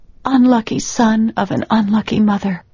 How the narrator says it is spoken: whimpered

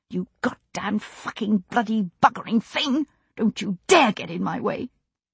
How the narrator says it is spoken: whispering through gritted teeth

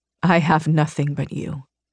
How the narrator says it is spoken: he murmured

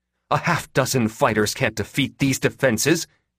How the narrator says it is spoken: she snapped at him

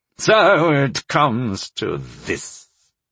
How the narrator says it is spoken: Sire Kusi said through gritted teeth

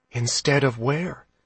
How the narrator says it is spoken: she asked quietly

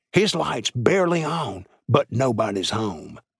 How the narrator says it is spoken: One whispered to another

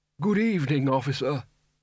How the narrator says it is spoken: its wearer croaked

